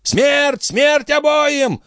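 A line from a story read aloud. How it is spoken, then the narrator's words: Robbers yelling. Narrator (Russian): вопили грабители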